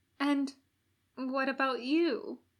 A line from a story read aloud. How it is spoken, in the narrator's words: Aziraphale asked timidly